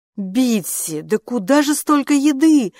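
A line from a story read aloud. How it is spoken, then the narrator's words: Exclaimed. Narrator (Russian): воскликнула Джанин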